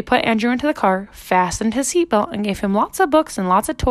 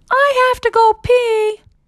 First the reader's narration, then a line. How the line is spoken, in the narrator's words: Andrew yelled